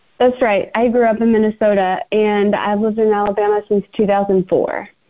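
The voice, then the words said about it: Non-Southern American accent. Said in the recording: “I'm taking from your accent you're maybe not originally from Alabama.”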